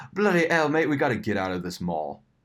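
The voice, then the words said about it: Put-on English accent. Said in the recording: “I think he's from England, because it was like he would start the start of the sentences with an accent”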